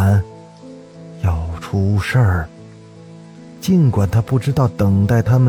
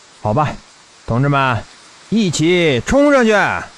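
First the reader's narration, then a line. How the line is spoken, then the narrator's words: Group shout. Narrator (Chinese): 大家一起喊着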